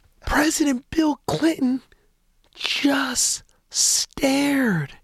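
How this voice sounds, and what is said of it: Usual voice. Nothing is said of it.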